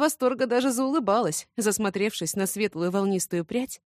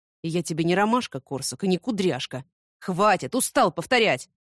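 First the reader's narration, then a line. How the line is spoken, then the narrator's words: Sudden growl. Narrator (Russian): Неожиданно рыкнул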